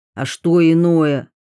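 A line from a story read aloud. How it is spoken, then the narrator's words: Irritated question. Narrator (Russian): раздраженно спросил ротмистр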